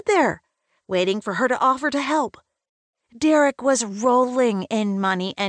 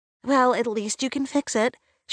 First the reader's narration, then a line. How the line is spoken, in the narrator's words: she said